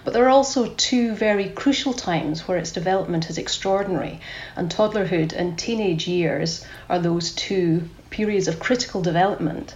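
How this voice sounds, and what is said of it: Scottish accent. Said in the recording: “You can tell I'm ... from my Scottish accent”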